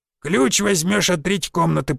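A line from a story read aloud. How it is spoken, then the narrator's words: Creaky voice. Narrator (Russian): проскрипел он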